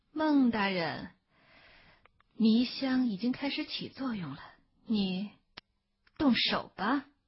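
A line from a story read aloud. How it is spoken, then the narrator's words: Smiling. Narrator (Chinese): 霍成军笑着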